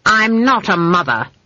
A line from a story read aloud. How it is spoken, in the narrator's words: snapped Granny